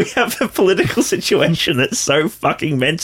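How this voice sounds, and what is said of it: Usual voice. Nothing is said of it.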